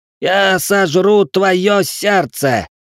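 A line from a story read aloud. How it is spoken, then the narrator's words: Young count roaring. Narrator (Russian): взревел графёныш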